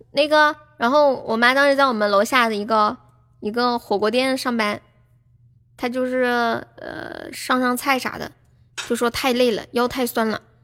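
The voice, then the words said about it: Slight Changsha accent. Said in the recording (Chinese): “好像是有点长沙口音哦”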